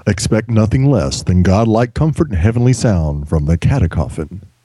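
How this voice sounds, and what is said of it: Announcer voice. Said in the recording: “do my announcer voice.”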